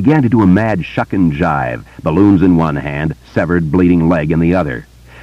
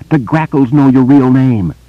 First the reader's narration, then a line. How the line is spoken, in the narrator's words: she screamed at it suddenly